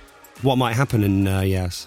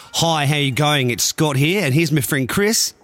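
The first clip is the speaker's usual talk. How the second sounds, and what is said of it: Poor attempt at Australian accent. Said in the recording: “I think ... needs to put on his Australian accent ... Terrible ... It's got worse ... I can't do it.”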